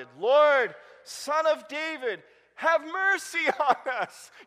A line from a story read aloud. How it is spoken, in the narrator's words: Two blind men … they shouted